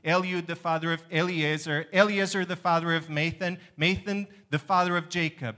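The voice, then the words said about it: Hebrew-style pronunciation of names. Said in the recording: “my accent ... closest to the Jewish pronunciation of the names, right? Not the English ones”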